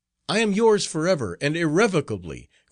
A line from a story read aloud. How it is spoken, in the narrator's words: cried the monk, wild with terror